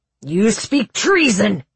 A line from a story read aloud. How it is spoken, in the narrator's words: roared the king